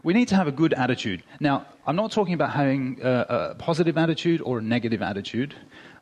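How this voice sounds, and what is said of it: Australian accent, speaking quickly. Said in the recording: “I'm moving quickly and my Australian accent kind of blows things a bit for you”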